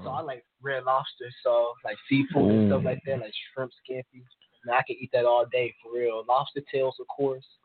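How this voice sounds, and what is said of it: Slight East Coast American accent. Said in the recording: “Kind of an East Coast accent, too. Like, yeah. The way you pronounce certain words. I hear it.”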